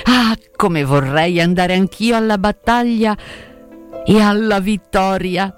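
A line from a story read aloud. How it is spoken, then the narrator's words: Vibrant voice. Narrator (Italian): Disse con voce vibrante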